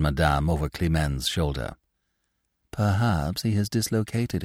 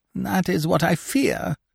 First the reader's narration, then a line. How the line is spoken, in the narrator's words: whimpered Scaramouche